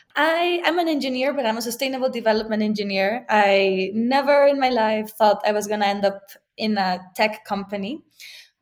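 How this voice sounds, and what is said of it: Mexican accent. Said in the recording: “I'm Mexican. If you can hear my accent.”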